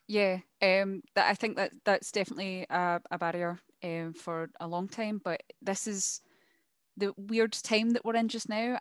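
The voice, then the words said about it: Scottish accent. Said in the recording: “I'm assuming you're Scottish from your lovely accent”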